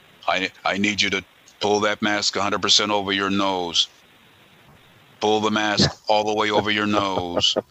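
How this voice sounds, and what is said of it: Robotic, mechanical imitated voice. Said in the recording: “the guy sounded like a robot, literally. He sounded like Robocop. ... boy, he sounds like a robot.”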